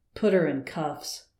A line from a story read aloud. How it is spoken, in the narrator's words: muttered to himself